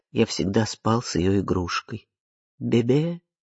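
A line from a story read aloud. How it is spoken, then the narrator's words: Quiet, turned away. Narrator (Russian): Отвернувшись, Ари тихо говорит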